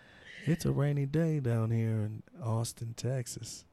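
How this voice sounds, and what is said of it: Smooth deep radio DJ southern drawl. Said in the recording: “smooth ... Smooth 106.5 ... nice deep voice ... Where'd you get that little southern draw from? ... My twang? ... Or a southern draw. Or a twang ... when they talk real slow”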